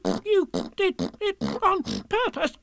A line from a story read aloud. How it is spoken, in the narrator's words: spluttered Piglet as soon as he could speak again